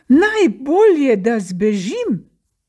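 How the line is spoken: Frightened, sad cry. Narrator (Slovenian): Prestrašil se je in ves žalosten in v strahu zaklical

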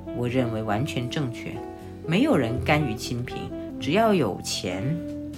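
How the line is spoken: Murmuring. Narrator (Chinese): 青善喃喃地说道

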